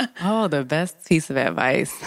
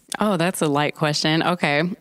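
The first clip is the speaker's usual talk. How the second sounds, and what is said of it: Sarcastic remark. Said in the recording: “being sarcastic”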